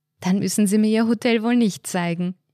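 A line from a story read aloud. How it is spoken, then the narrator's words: Laughing. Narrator (German): lachte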